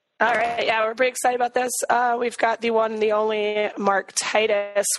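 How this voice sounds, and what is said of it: Squeaky, strained voice. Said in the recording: “Still have a little bit of a pretty girl voice from the games this weekend, so you have to excuse the squeaking.”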